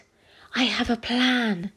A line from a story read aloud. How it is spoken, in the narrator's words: with a cheeky grin on his face and whispered